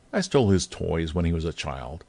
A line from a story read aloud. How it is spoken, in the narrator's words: said Drake